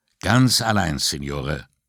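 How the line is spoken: Firm voice. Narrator (German): sagte Puccetti mit fester Stimme

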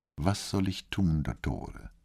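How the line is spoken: Questioning. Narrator (German): fragte Brunetti

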